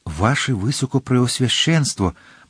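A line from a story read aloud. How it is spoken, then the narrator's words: Confused whisper. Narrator (Ukrainian): прошепотів, розгублено кліпаючи очима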